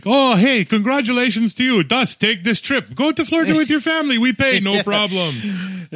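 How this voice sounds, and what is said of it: Poor put-on German accent. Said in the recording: “my German accent is pretty horrible”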